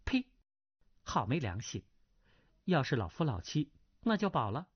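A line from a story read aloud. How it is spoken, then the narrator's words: Low voice, laughing. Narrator (Chinese): 那葛师妹啐了一口，低声笑道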